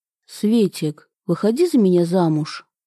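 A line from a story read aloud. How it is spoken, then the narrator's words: Completely calm. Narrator (Russian): совершенно спокойно произнес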